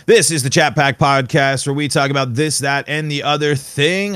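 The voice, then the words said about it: Polished professional podcaster voice. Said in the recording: “putting on my professional podcaster voice”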